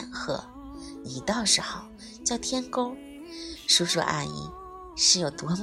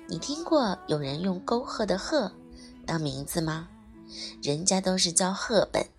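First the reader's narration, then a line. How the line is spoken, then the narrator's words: Laughing, cutting in. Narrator (Chinese): 宝儿一边笑笑，一边抢着道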